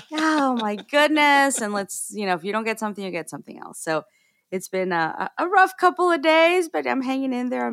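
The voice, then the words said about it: Deeper, sick-sounding voice. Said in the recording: “I'm actually quite under the weather... my voice is a little bit deeper, so it's got like more of the sexy tone”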